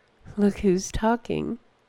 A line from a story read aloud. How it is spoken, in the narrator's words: said Enyar quietly, though not quietly enough